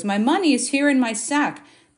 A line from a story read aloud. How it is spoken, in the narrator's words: he exclaimed to his brothers